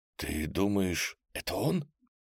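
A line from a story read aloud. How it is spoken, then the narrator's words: Barely audible whisper. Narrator (Russian): Шепот Вани стал еще тише, что Аленка еле расслышала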